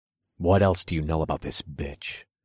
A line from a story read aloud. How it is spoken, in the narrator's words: I growled, boiling rage coursed through my body